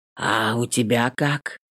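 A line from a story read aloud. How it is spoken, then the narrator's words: Hoarse rasp, uneasy. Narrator (Russian): Хриплю, не вынося тишины между нами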